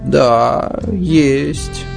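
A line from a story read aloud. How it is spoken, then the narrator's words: Sighing agreement, elderly woman. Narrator (Russian): согласилась, вздохнув, бабушка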